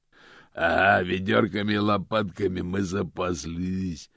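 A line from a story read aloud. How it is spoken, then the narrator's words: Growl from carriage. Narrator (Russian): прорычал голос из кареты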